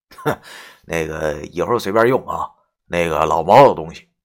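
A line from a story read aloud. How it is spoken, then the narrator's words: Shameless, grinning. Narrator (Chinese): 这孙子似乎没觉得尴尬，没脸没皮的对我一笑，然后说道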